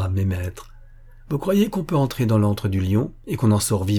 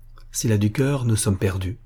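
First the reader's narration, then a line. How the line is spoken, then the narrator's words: Murmur. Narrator (French): murmura Magnus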